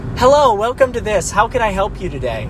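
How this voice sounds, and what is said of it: Upbeat, very inflecting customer-service voice. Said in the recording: “my customer service voice ... that upbeat, very inflecting voice where it's just, you're being very nice and very helpful to the person”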